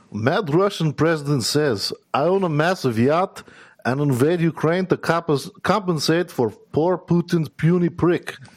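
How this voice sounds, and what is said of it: Put-on Russian accent. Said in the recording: “read two of the best in a Russian accent.”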